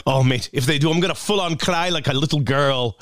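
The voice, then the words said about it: Weak put-on Scottish accent. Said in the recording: “I don't do a very good Scottish accent”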